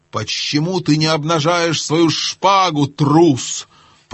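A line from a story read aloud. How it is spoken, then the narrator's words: Fierce hiss. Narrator (Russian): прошипел с самым свирепым видом Рипи-Чип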